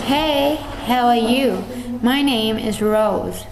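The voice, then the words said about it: Put-on American accent, not very convincing. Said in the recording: “the American accent ... it was good, you put in effort, but it wasn't very believable”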